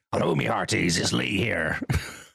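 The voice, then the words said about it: Pirate voice. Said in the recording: “Talk Like a Pirate ... introduce yourself in a pirate manner ... Oh, my word. You're so good.”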